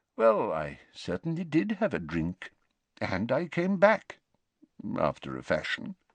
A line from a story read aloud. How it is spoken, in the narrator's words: mumbled Dumbledore